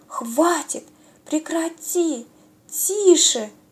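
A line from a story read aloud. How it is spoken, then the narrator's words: Frightened group whispering. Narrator (Russian): испуганно зашептали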